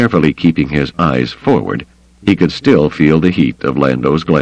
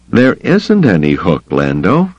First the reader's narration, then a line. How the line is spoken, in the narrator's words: he said